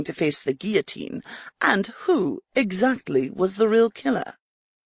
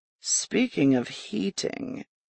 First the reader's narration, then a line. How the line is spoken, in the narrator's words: he muttered